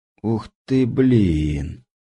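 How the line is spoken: Breathless exclamation. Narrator (Russian): только и выдохнул я

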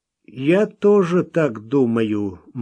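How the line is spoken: Gloomy voice. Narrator (Russian): мрачно проговорил незнакомец

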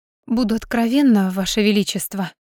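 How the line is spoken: Feigned sigh. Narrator (Russian): притворно вздохнула Алекса

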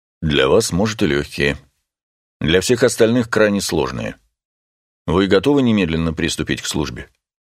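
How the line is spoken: Dry, stern reply. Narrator (Russian): нахмурился и ответил сухо

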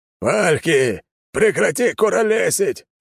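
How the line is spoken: Captain barking. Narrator (Russian): рявкнул капитан

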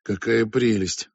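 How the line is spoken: Sighing. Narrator (Russian): вздохнул

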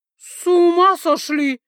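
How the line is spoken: Shrieking. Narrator (Russian): взвизгнул Джин

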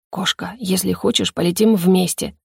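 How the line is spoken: Whisper. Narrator (Russian): прошептал мне лорд

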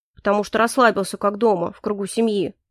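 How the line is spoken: Grumbled. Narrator (Russian): буркнул Дельсон

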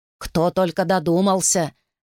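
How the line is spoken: Grumbling from behind. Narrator (Russian): ворчали за спиной

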